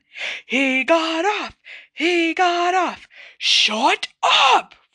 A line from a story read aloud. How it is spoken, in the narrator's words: roared Mrs